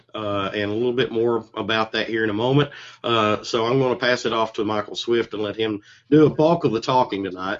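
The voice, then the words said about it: Hoarse, not fully recovered voice. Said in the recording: “My voice is not completely returned from the con crud”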